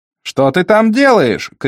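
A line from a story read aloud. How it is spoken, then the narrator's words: Shout after no answer. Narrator (Russian): крикнул Дорога в ад, не получив ответа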